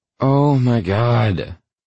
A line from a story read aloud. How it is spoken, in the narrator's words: she groans